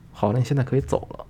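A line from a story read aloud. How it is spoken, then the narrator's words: Gentle. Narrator (Chinese): 老板 很温柔的跟他说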